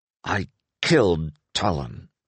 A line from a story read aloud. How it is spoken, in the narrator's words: Inglis said through his teeth